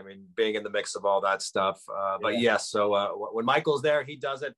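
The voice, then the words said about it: Southern American accent. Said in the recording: “You got a good Southern boy accent”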